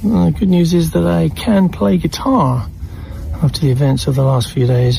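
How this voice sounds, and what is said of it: British accent, pleasant-sounding. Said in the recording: “There's something about the British accent. It even makes having a stroke sound pleasant.”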